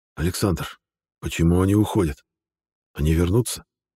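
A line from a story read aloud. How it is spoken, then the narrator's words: Whispered question. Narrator (Russian): шепотом спросил новый предводитель живых людей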